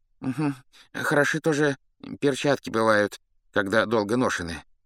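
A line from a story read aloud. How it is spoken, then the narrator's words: General's sigh. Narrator (Russian): вздохнул другой генерал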